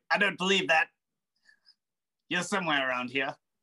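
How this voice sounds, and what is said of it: Character voice with shifting accent. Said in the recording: “this guy's accent keeps changing”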